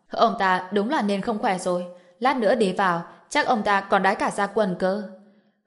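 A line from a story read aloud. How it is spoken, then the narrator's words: Mocking. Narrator (Vietnamese): Triệu Huy ở một bên châm chọc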